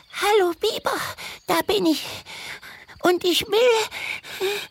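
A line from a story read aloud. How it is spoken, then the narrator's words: Gasping. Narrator (German): japste sie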